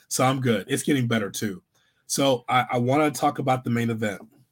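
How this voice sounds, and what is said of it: Raspy hoarse voice. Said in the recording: “you're going to get a raspy hood for a while. I sound tougher with the raspy.”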